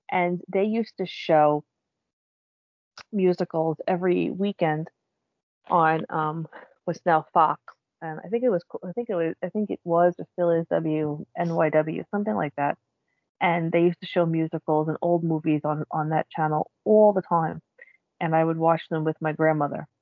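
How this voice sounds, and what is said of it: New York City accent. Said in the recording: “I'm from New York City, as you might be able to tell by my voice.”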